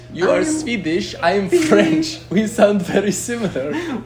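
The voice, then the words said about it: Weird, unconvincing put-on French accent. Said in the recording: “I sound very Swedish for a Frenchman. I cannot do Swedish accent or French accent. ... do a weird accent.”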